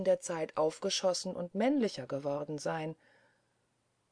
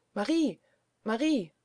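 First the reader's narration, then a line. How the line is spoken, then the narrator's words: Call from across corridor. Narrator (German): rief es über den Gang herüber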